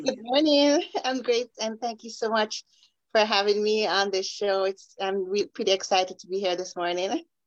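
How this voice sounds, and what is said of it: Jamaican accent. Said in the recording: “I love the accent. Where's the accent from? ... Jamaica.”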